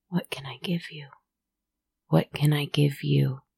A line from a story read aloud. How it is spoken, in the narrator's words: Over and over, I whispered